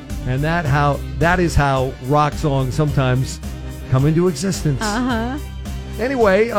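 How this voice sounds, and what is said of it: Usual voice. Nothing is said of it.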